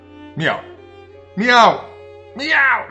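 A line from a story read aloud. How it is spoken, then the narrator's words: Shouting. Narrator (Dutch): schreeuwde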